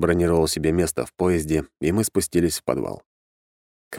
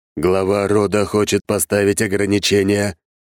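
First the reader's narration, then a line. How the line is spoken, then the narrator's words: Booming voice. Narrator (Russian): прогремел голос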